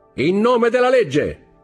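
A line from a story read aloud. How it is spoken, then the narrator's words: Unanswered shout. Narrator (Italian): gridò una voce a cui nessuno rispose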